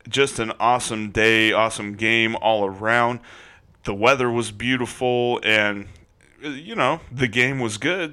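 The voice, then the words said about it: Voice a bit deeper than usual. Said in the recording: “my voice sounds like it is a little bit deeper”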